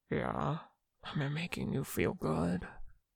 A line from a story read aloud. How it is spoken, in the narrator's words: Mingyu breathed